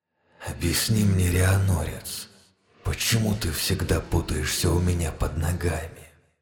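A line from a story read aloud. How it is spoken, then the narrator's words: Clipped, contemptuous female voice. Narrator (Russian): отчеканил презрительно женский голос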